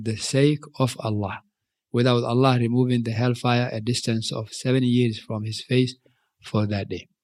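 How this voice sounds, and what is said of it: African-accented English. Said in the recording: “is my English pronunciation ... from Africa, you mix the accents.”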